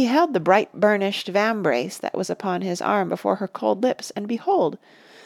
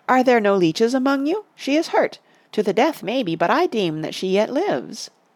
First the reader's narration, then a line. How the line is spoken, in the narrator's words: he cried